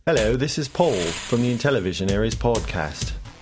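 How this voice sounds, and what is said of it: Put-on mixed British accent. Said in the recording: “in an English accent ... My dialect is a bit off because I'm not sure uh, which part of England I'm from ... combine my different variations of British accents”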